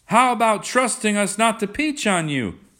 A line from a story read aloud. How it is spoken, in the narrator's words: cried someone